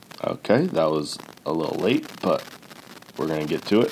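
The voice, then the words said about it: Sick-sounding voice, coughing. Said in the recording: “excuse me if I'm coughing throughout this episode. You could probably hear it in my voice. ... have a little upper respiratory infection”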